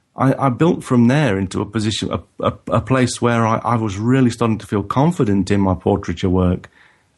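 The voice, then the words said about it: Non-native English accent. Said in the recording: “the accent tips me off... you're originally from somewhere else”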